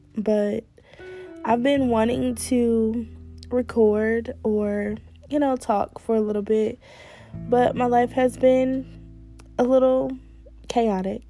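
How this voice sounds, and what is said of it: Hoarse voice. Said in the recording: “I sound a little hoarse. My throat is a little sore.”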